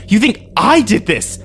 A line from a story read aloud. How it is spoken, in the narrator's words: I screamed at him